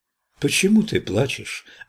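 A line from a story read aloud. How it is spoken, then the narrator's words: Gentle, tender voice. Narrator (Russian): ответил Кришна ласковым голосом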